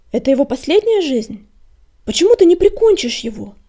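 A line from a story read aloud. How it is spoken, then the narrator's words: Shouted question. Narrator (Russian): крикнул он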